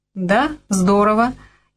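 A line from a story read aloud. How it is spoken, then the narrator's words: Sudden giggle. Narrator (Russian): вдруг хихикнула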